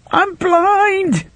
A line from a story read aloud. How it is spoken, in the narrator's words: the man cried in a high, shrieky voice